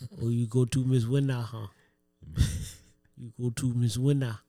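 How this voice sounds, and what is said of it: Imitates another person's accent. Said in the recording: “That was the accent. ... That's Felix's accent.”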